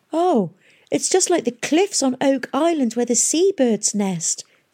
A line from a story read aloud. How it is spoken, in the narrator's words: she cried